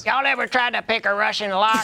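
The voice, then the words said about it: Larry the Cable Guy impression. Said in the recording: “It's sad how close that impression is ... Larry the Cable Guy crossover event”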